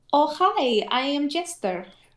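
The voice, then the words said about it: Jester's Russian/Eastern European-style accent. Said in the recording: “a weird Russian slash Eastern European ... Jester's accent, Laura Bailey's character ... Like that whole accent”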